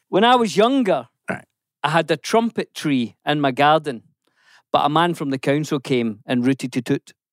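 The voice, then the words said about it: Put-on Scottish accent. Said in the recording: “It's in a Scottish accent... Scottish accent again... I'll do the accent... That is an accent-heavy joke.”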